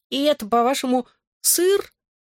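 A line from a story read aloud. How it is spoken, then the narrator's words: Squeaky, thick French accent. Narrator (Russian): пропищал он с густым французским акцентом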